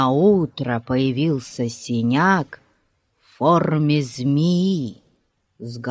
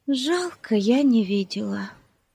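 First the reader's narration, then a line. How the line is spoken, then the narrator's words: Sigh. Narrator (Russian): вздохнула Бетси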